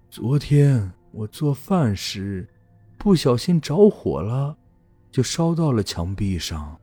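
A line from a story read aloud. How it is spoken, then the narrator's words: Sighing old woman. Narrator (Chinese): 外婆叹了口气说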